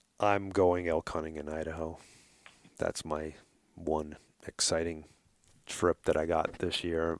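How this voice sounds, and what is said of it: New York accent. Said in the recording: “if you haven't noticed my accent, I'm going to go back to New York”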